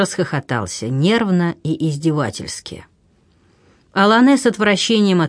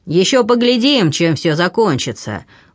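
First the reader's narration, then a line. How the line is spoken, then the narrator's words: Threatening shout. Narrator (Russian): угрожающим тоном крикнул ему вслед граф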